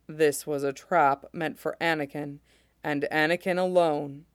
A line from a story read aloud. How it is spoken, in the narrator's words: Mace says grimly